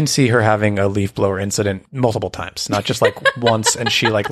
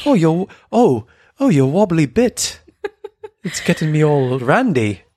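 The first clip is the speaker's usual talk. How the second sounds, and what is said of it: Bad put-on British accent. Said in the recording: “That sounds like British slang ... that was the worst British accent ever”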